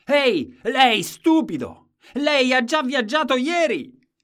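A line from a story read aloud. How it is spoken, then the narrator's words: Shouted. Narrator (Italian): Gridava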